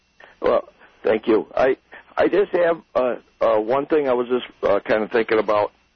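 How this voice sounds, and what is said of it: Hoarse, lost voice from cold. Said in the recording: “I've lost my voice. I've got a really bad cold.”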